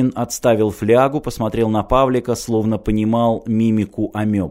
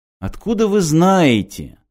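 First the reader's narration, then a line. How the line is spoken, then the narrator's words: Exclamation. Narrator (Russian): воскликнул Мартин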